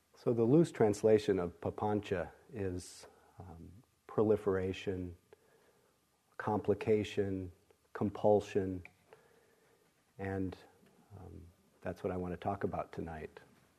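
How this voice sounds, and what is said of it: Hoarse, partly lost voice. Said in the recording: “I'm noticing that I've lost my voice to a certain degree. ... under the weather”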